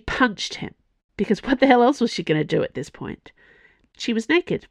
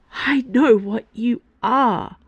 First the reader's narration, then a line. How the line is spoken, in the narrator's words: she choked out